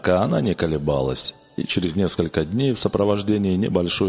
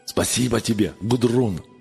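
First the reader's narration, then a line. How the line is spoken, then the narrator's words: Joyful exclamation. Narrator (Russian): радостно воскликнул он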